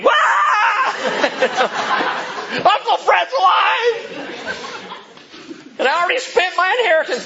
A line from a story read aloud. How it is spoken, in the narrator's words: screaming